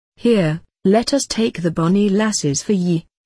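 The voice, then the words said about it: Very broad Scottish accent. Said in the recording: “in a very broad Scottish accent”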